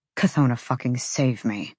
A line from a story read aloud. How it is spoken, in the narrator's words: Hunt muttered